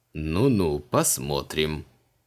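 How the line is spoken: Skeptical grunt. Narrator (Russian): скептически хмыкнул маг

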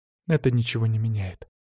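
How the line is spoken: Calm reply. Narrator (Russian): спокойно ответила Лидия, не поддавшись на провокацию

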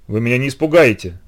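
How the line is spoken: Boy forcing defiant tone. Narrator (Russian): сказал мальчик, стараясь говорить вызывающим тоном

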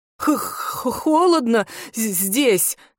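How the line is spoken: Man's shivering, forced words. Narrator (Russian): сквозь дрожь выдавил из себя мужчина

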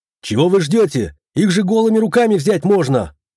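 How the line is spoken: Impatient shout. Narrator (Russian): крикнул магистр, не желающий ждать

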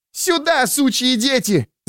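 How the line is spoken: Shrieking, spluttering. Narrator (Russian): завопила, брызгая слюной

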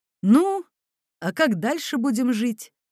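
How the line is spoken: Plain. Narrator (Russian): спросил майор

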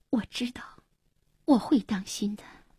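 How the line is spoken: Soft, tearful. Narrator (Chinese): 黄英默然，眼里闪着泪光，轻声说

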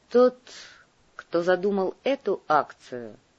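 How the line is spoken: Slow speech. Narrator (Russian): медленно сказал Андрей

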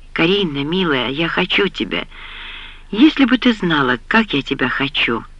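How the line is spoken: Passionate breathless whisper. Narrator (Russian): шептал Джейрд, отрываясь от ее губ

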